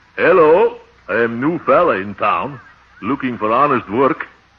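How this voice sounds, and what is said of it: Put-on dialect voice. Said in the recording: “wait till I try this dialect on him”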